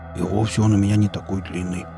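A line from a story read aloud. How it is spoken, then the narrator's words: Barely audible regretful mumble. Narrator (Russian): Пробормотал он едва слышно, скорее сожалея о данном обстоятельстве, нежели смущаясь его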